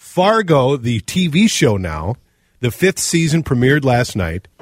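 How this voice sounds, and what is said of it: Usual voice. Nothing is said of it.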